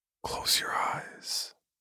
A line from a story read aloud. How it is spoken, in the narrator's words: Chuck whispered to me